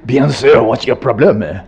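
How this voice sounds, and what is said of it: Poor imitation French accent. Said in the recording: “Let alone the French... I can do an American imitation of a French accent, but I can't do it”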